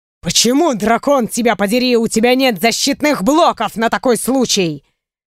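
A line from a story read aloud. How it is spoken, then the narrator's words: Angry growl. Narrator (Russian): Зарычал он уже на меня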